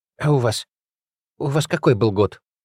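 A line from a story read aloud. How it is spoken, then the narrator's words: Breathy exhale. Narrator (Russian): выдохнула Олеся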